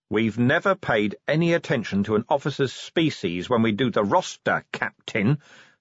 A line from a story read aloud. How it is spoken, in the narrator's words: said Vimes coldly